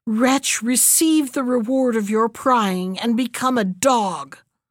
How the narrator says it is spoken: she cried madly

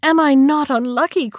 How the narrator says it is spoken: cried the poor princess

